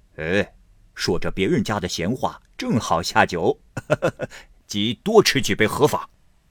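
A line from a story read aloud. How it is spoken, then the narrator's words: Laughing. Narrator (Chinese): 子兴笑道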